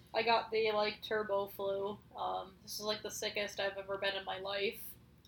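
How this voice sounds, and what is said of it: Rough, sick-sounding voice. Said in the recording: “My voice might still sound a little shitty.”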